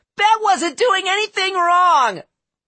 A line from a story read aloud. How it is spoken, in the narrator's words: a shrill young voice from the crowd yelled